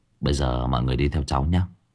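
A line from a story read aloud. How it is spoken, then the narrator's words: Soft. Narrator (Vietnamese): Tôi khẽ nói với mọi người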